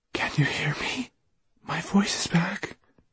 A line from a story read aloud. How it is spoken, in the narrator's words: she whispered to him